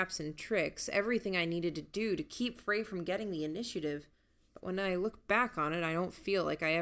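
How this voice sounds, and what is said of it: Usual voice. Nothing is said of it.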